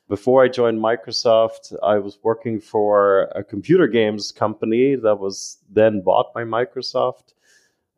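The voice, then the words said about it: Mixed German, Irish and American accent. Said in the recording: “I've been born and raised in Germany, but I spent a lot of time in Ireland and the United States, hence the accent.”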